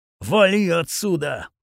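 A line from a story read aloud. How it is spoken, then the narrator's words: Growl. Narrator (Russian): прорычал я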